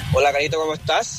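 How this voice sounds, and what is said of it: Deep radio announcer voice. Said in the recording (Spanish): “voz de locutor?”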